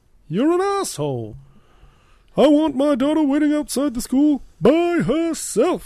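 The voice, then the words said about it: Imitates a movie character's voice. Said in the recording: “My Benedict Cumberbatch impersonation has really turned into more of a Cameron from Ferris Bueller's Day Off impersonating Sloane's dad impersonation.”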